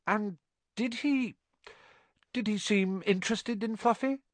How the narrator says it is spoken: Harry asked, trying to keep his voice calm

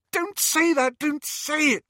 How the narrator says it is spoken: squealed Hermione

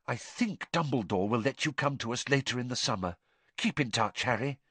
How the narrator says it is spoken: She whispered in his ear

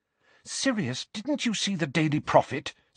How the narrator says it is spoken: said Hermione anxiously

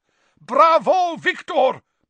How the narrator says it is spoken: boomed Karkaroff, so loudly that everyone could hear him, even over all the applause

